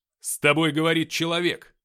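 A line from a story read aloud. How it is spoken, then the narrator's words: Barking. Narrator (Russian): рявкнул я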